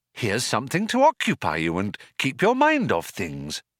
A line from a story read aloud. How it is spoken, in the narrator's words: said Trillian in a bright, compassionate tone